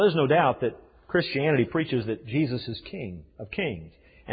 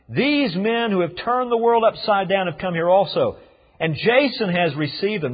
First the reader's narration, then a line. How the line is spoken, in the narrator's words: shouting